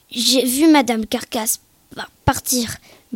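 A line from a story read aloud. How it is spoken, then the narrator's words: Stammering. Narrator (French): balbutia-t-il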